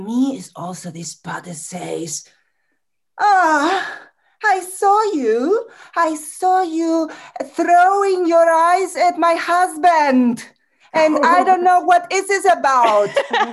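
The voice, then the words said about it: Put-on foreign accent, character voice. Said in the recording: “Make the accent more. Make the accent more.”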